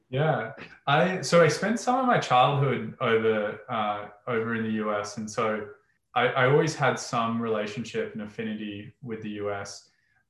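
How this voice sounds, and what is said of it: Australian accent. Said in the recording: “you have an Australian accent”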